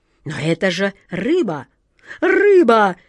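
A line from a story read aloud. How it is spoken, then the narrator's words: Near-desperate exclamation. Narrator (Russian): почти с отчаянием воскликнула атаман Джина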